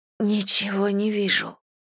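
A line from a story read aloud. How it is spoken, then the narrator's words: Breathless whisper. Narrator (Russian): прошептала, пытаясь набрать воздуха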